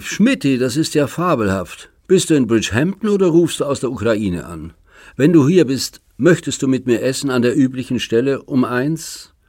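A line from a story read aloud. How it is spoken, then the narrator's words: Familiar voice calling. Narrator (German): Die vertraute Stimme rief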